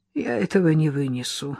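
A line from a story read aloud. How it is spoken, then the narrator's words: Sighing. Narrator (Russian): вздохнула Лола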